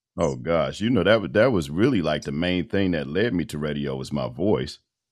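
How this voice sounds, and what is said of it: Deep male voice. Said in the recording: “that deep voice ... it was a deep voice”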